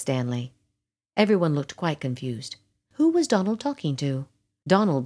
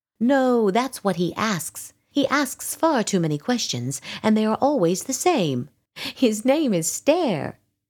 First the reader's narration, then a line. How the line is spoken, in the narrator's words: said Donald, laughing